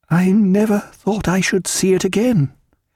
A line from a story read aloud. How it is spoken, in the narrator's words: she said in a tremulous voice